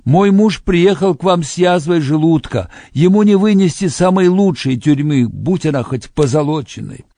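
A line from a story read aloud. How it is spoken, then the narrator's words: Woman shouting back. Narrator (Russian): Одна из женщин кричала в ответ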